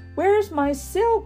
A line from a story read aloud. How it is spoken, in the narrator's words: She cried out in alarm